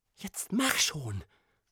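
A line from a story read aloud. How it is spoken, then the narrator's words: Hiss. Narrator (German): zischte nun auch Prinzessin Morgenblüte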